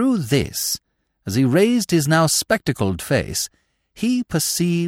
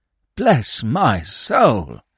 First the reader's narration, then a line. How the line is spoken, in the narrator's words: he murmured